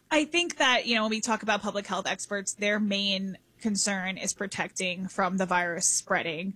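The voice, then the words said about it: Hoarse, fading voice. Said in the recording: “I'm also losing my voice.”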